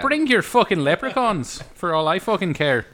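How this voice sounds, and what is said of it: Put-on Irish accent. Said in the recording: “Okay, so that's your accent.”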